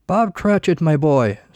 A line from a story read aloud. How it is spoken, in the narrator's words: Scrooge's voice boomed from across the room